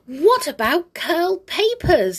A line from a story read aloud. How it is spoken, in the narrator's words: he squeaked